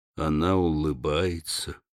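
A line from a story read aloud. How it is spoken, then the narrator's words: Muttered. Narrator (Russian): пробормотал Урсус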